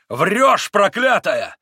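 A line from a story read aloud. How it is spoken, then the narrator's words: Yelling. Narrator (Russian): завопил Митя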